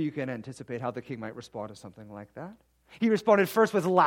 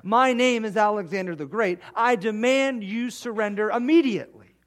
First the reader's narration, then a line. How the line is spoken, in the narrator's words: Alexander, in his humble spirit, shouted up to this king and said